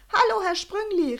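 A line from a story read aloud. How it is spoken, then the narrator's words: Called out. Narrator (German): rief Jo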